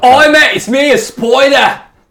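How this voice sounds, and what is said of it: Intense put-on Australian accent. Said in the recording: “Australian accent ... yours is pretty intense”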